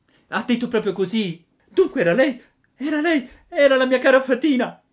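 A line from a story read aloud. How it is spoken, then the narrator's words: Screaming, sobbing hard. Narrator (Italian): cominciò a urlare Pinocchio, singhiozzando e piangendo dirottamente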